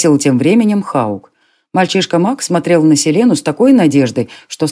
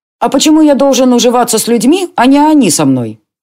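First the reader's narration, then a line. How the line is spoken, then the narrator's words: Snapping back. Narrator (Russian): огрызнулся Моди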